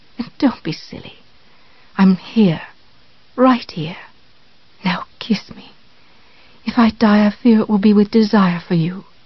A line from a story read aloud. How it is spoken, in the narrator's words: Misery whispered